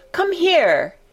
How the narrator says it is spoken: he shouted to Dickon

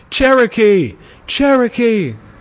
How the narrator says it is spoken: Shouts of applause went up for the victor, and there were many cries of

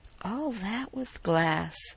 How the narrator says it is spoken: murmured Orne

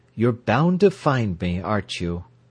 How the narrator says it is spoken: she said in an odd, saturnine, caressive voice

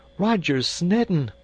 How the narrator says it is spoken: she cried with a hysteria

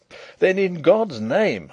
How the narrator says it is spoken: I cried

